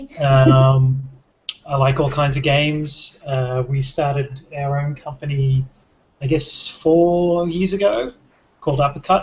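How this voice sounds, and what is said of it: Australian accent. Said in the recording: “I'm Australian, if that's not obvious from the accent.”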